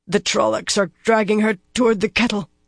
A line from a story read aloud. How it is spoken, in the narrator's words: Doisine said suddenly, her voice grating